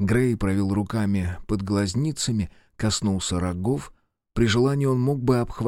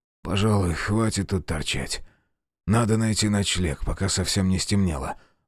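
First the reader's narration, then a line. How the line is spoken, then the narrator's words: Exhaled. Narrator (Russian): выдохнул Грейден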